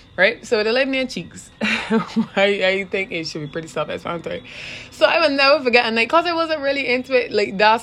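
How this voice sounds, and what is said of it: Thick Barbadian accent. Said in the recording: “I am Barbadian... too thick with my accent”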